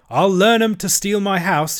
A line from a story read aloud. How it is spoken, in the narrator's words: he cried